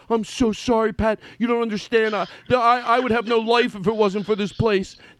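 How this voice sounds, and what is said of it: Imitates another person's voice. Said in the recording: “here's my impersonation of you”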